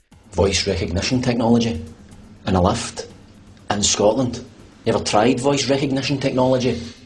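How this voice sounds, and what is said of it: Scottish accent. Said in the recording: “with Scottish people stuck in a voice recognition lift ... They don't do Scottish accents.”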